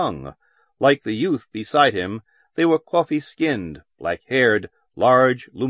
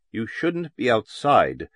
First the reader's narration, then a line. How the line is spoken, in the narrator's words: the youth had said firmly and quietly